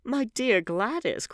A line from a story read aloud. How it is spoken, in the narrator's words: cried Lord Henry